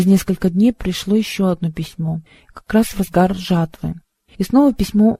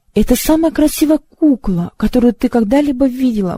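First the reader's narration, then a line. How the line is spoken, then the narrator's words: Mother exclaiming. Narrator (Russian): воскликнула мама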